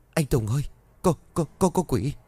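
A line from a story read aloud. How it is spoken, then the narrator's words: Terrified stammer. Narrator (Vietnamese): hai mắt hắn trợn ngược, miệng lắp bắp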